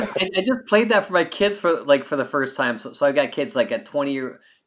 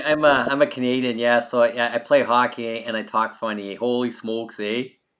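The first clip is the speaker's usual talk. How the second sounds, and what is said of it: Thick exaggerated Canadian accent. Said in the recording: “I got the A at the end there ... especially when you get that deep into the accent”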